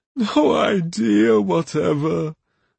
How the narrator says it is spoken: Quistel gasped in such desperation

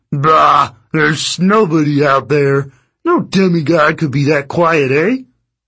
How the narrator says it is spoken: The first monster chuckled

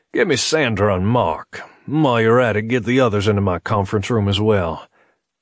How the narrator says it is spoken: Corwin barked

